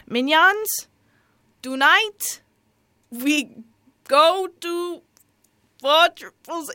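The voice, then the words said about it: Not-so-good Gru impression. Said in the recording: “I should do the accent ... my groove impression isn't that good”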